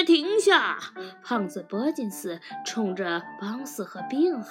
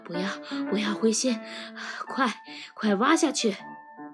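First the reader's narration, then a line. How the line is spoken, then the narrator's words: Breathless, panting. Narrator (Chinese): 狐狸先生气喘吁吁地说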